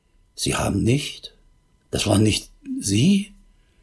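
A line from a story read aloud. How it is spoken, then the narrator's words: Distraught, barely audible stammer. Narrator (German): völlig aus der Fassung und stammelte kaum hörbar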